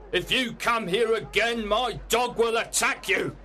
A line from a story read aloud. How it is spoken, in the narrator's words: shouted Mr